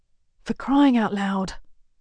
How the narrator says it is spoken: Kara mutters under her breath

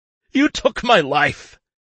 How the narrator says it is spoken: he continues hysterically

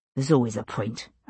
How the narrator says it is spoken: I muttered

